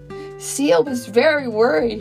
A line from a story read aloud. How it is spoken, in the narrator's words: cried